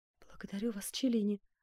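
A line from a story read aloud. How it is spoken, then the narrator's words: Woman whispering. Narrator (Russian): прошептала госпожа де Тамп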